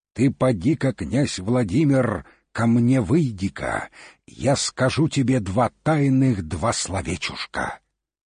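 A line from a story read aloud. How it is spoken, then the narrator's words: Shouting, third time. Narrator (Russian): Закричал тут Илья, да во третий раз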